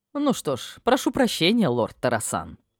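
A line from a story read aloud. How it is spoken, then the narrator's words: Smirking mage. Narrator (Russian): Хмыкнул маг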